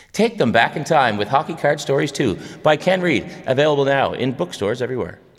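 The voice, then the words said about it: Retro TV commercial announcer voice. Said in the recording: “channeling like a 1980s K-Tel commercial... That was my announcer voice”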